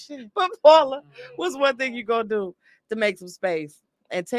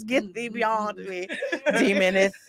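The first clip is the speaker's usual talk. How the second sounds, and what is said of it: Solemn Old Testament-style voice. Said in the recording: “In my Old Testament voice”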